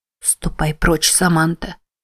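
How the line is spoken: Whispered. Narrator (Russian): прошептала Мэтти

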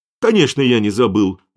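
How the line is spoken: Loud offended protest. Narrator (Russian): громко запротестовал Аргайл, обиженный тем, что его план не оценили по достоинству

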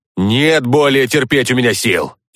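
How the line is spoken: Snort. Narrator (Russian): я хмыкнул

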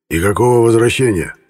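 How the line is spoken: Hoarse, painfully harsh. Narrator (Russian): Его голос звучал хрипло и до болезненного резко

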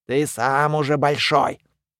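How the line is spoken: Grumbling, secretly pleased. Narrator (Russian): Муми заворчал, но было видно, что ему приятна забота

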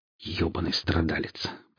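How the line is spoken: Grumbling young woman. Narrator (Russian): проворчала девушка

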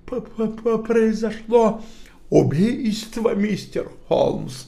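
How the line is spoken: Stammering. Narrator (Russian): Человек заикался

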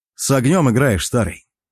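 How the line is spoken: Smirking, amused. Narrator (Russian): Я хмыкнул

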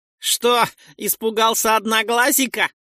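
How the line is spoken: Laughing. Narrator (Russian): посмеялся кто-то

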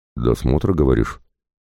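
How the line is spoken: Wry grunt. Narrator (Russian): Я хмыкнул

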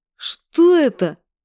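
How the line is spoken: Frightened cry. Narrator (Russian): испуганно вскрикнул Димарик

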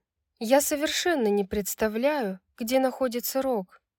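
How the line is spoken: Calm tone. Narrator (Russian): спокойным тоном произнесла Брайс

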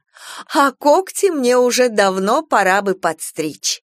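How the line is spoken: Mother laughing. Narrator (Russian): засмеялась мама

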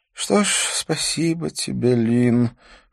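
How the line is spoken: Weary repeated sigh. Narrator (Russian): в который раз вздохнул Дидье

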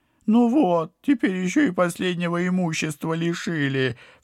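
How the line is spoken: Whimpering, pity-seeking. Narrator (Russian): всхлипнул падла, привычно пытаясь давить на жалость

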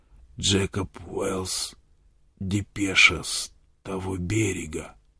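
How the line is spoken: Hoarse whisper. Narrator (Russian): Он хрипло прошептал

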